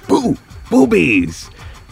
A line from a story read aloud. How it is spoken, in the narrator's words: she goes